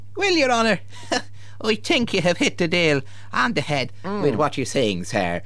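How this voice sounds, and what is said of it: Poor imitation Irish accent. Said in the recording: “you specialise in the Irish national accent, or your rather poor approximation of it ... the accent you're attempting”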